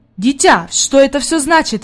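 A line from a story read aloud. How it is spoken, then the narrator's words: Exclaiming. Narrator (Russian): воскликнул господин Сесмон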